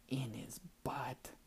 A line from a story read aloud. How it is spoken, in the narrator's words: Gumbaby whispered and snickered